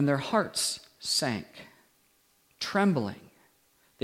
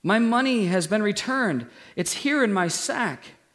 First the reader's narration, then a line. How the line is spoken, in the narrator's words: exclaimed